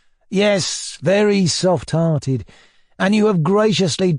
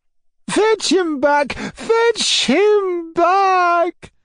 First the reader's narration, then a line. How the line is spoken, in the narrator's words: shrieked Madame la Générale